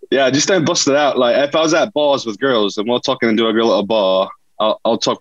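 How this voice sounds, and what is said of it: British accent. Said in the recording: “I got a real British accent... I can be British... it sounds like I'm talking to a different person right now”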